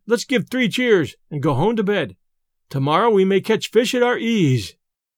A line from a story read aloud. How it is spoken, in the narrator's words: cried Ben